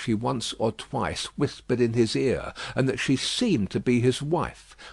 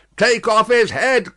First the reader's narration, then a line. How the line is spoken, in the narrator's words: cried the audience